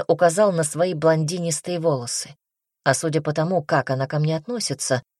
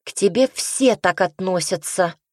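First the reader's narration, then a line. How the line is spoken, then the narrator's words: Spiteful sister's remark. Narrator (Russian): злобно заметила сестра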